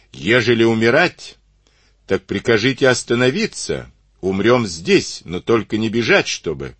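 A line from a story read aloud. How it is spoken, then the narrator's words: Shouted. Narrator (Russian): вахмистр трехженный крикнул ему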